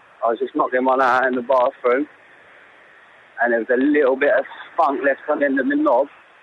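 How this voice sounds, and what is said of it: Thick regional accent, hard to understand. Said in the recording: “quite a thick accent going on there ... I can't understand the fucking word.”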